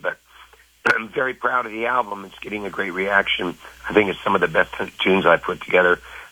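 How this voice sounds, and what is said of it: Worn, tired-sounding voice. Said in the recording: “Excuse my voice is a bit shot from, I flew all night to get in”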